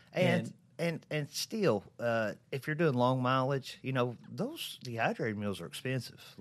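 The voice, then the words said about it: Speaks with a noticeable regional accent. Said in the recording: “if you can't understand my accent”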